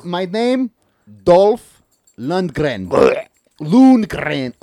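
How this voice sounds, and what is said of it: Put-on Russian accent. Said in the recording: “Let me get into my fucking Russian accent real quick. I can get into it very well.”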